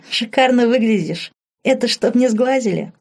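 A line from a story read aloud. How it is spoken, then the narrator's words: Laughing question. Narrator (Russian): смеясь спросила она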